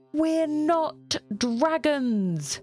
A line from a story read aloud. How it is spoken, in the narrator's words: Ashley shouts